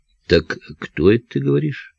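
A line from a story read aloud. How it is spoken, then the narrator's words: Affectionate question. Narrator (Russian): ласково спросил Марлаков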